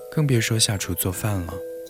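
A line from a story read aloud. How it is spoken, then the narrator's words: Sighing. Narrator (Chinese): 余念叹了一口气说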